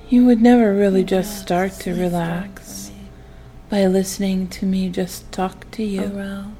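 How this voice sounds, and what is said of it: Calm, soothing hypnotic voice. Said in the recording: “calming ... my voice”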